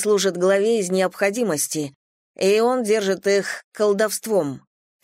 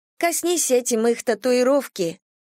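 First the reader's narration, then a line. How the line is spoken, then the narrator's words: Sad. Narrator (Russian): Голос Кирина звучал все так же печально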